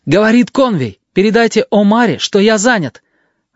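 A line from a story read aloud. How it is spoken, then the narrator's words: Shout. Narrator (Russian): Конвей крикнул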